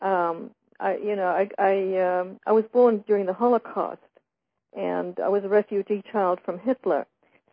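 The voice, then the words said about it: Unusual non-Australian accent. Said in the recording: “my strange accent, although it's not an Australian accent”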